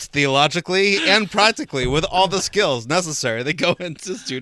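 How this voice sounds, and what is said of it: Salesman pitch voice. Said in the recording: “You even did the salesman voice.”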